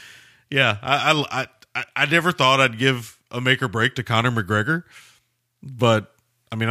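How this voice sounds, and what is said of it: Usual voice. Nothing is said of it.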